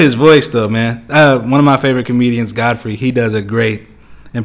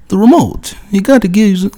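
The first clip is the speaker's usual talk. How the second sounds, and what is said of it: Imitates another person's voice. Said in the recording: “let me try doing an impersonation.”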